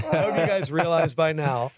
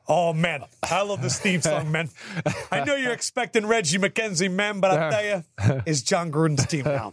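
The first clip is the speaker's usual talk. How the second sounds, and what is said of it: Put-on Italian accent. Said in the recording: “when did John Gruden get an Italian accent? ... I'm not good at imitations. ... So then it all turns Italian.”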